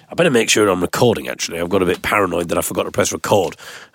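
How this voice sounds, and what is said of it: Slightly nasal, congested voice. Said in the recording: “Got a bit of a cold as well, so I must apologise if my voice is a little bit more nasal than usual.”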